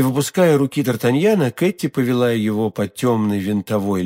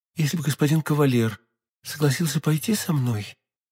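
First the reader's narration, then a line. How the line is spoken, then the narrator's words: Timid. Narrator (Russian): робко сказала Кэти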